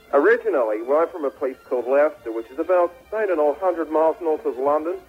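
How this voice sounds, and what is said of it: English accent. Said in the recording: “the ... Lose the accent. You know, it's not funny anymore. You know, it was quaint there earlier”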